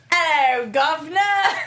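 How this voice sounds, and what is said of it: Put-on British accent. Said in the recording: “can you do a British accent, though, and read it? ... I can do it.”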